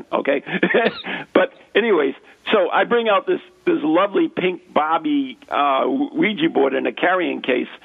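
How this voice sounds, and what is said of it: American accent. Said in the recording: “It's my crappy American... It's my accent.”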